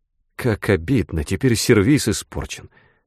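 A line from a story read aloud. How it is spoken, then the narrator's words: Sad mutter to herself. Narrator (Russian): пробормотала про себя Сара, грустно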